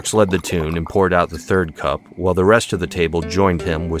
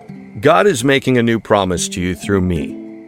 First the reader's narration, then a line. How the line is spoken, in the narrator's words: said